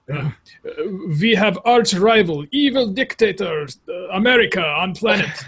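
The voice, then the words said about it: Bad put-on Russian accent. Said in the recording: “now I'll try my bad Russian accent”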